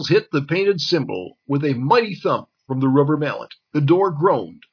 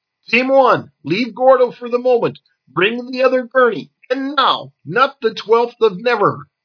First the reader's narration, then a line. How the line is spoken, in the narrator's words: Instantly, Zale snapped